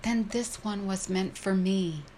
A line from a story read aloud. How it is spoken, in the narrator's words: beatific smile, ecstatically exclaiming